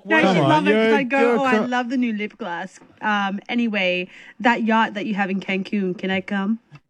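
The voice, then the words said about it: Put-on voice, sounds Australian. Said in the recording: “Why are you putting a voice on? Why you can be yourself? ... you sounded Australian for the last 45 minutes. Why are you talking to me in a voice?”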